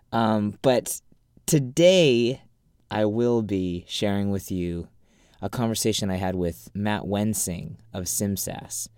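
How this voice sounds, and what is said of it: Deep, congested sick voice. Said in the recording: “I've got my sexy radio voice ... I've got a cold”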